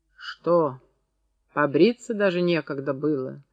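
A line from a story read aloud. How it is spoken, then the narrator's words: Mocking question. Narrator (Russian): спросил насмешливо Федор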